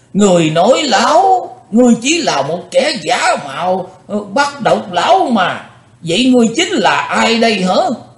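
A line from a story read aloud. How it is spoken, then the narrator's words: Angry old man shouting. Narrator (Vietnamese): Lão nhân già giận dữ quát lên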